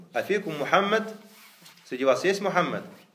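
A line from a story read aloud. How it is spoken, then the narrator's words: Shout. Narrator (Russian): Абу Суфьян крикнул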